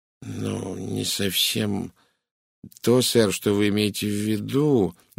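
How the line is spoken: Uncertain. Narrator (Russian): неуверенно произнесла Гладис

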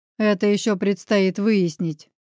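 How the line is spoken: Gloomy agreement. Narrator (Russian): мрачно поддержал я тему

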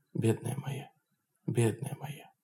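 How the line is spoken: Guilty whisper. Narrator (Russian): Анна Алексеевна виновато шептала

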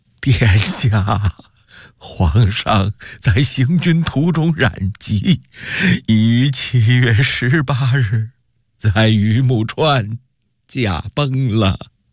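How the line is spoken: Crying, kneeling. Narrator (Chinese): 杨荣满脸风尘地跑进东宫，…哭着说道

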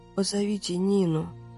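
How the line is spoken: Mumbling. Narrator (Russian): пробормотала Людочка

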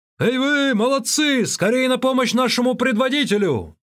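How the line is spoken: Older robber shouting. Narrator (Russian): Старший из прибежавших разбойников крикнул

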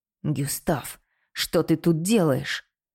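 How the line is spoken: Pained hiss, sharp inhale. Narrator (Russian): Прошипел Твен и резко вдохнул, потому что Гюстав вывернул ему руку

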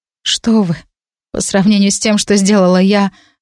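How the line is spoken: Confused mumble. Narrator (Russian): растерянно пробормотала я

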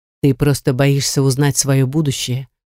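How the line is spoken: Calm fortune-teller's voice. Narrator (Russian): произносит спокойно гадалка мне в спину

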